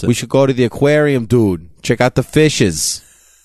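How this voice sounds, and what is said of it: Exaggerated put-on Boston accent. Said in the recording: “My Boston accent. ... No one asked for the Boston accent.”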